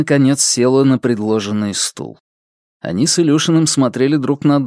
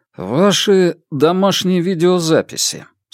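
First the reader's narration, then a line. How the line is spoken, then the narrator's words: Dry reply. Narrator (Russian): сухо отозвался Илюшин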